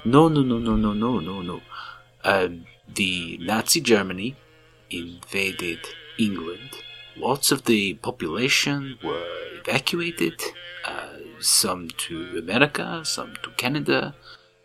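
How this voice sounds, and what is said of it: Russian accent. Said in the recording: “speaks with a Russian accent”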